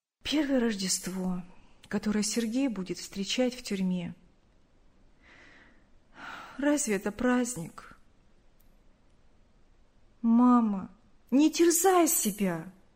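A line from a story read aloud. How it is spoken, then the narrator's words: Sad. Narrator (Russian): грустно сказала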